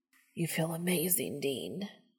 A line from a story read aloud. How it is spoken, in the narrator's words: Castiel hisses